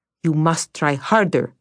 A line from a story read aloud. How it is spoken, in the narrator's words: snapped Vasya